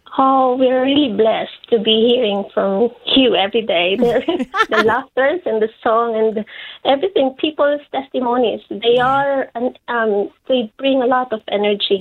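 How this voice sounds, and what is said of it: Filipino accent. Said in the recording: “you've got a Filipino accent there”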